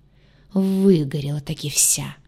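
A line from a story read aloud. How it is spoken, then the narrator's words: Angry speech. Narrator (Russian): Зло проговорил он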